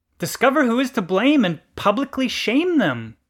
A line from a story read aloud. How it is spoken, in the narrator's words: cried the complainant